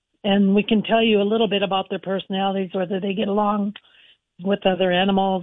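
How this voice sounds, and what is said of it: Hoarse, fading voice. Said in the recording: “Sorry, I'm losing my voice.”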